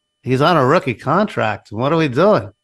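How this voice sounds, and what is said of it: Robert Kraft impression, Seinfeld-like. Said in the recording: “your Robert Kraft impersonation? ... Got a touch of Seinfeld in there.”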